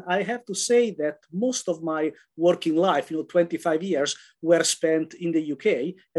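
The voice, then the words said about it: Italian accent. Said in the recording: “as you can gather from the accent, originally I am Italian ... I have to lose this Italian accent. But as you can see, it hasn't gone anywhere.”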